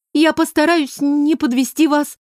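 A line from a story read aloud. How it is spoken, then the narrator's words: Squeaking. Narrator (Russian): пискнула я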